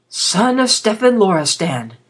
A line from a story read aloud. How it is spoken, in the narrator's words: the old priest said in a shaken voice